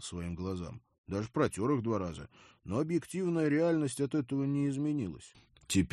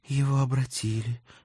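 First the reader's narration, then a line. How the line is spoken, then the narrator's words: Hoarse breath. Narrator (Russian): хрипло выдохнула Дана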